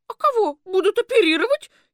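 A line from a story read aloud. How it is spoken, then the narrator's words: Frightened question. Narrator (Russian): испуганно спросила Вера Антоновна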